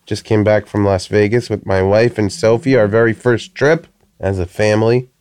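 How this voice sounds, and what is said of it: Congested voice from a cold. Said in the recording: “hear it in my voice, I have a little bit of a cold.”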